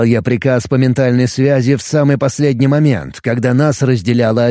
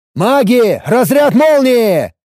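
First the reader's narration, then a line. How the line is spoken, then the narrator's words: Loud shouted order. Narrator (Russian): громко выкрикнул я приказ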